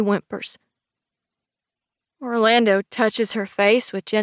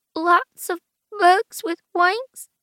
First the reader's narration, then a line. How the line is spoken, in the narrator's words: She whimpers